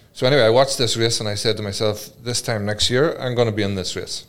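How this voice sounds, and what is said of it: Irish accent. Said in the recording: “I can hear it as an Irish accent.”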